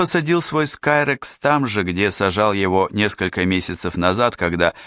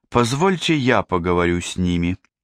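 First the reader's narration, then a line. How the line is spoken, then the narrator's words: Plain. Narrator (Russian): сказала Диана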